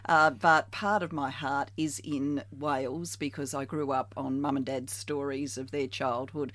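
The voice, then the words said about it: Australian accent. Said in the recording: “I am 100% Australian, as you can tell from this voice.”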